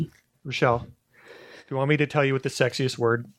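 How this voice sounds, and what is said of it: Usual voice. Nothing is said of it.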